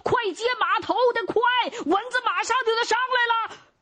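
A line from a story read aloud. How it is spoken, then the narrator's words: Urgent call across distance. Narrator (Chinese): 巴图 赶紧冲着不远处那张继元还有其他几个马官喊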